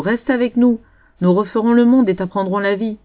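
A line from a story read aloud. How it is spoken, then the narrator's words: Shouting. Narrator (French): criait alors Boileau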